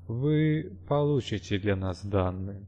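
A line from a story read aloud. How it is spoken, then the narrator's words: Quiet voice. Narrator (Russian): негромко произнес он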